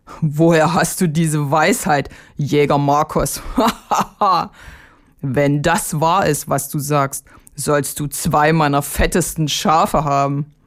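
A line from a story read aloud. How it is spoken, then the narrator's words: Laughing. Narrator (German): lachte der Bauer und sprach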